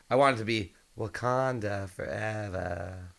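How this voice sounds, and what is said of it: Weird put-on voice. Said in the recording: “A weird voice.”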